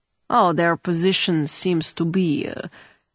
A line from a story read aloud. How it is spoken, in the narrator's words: Vege replied dryly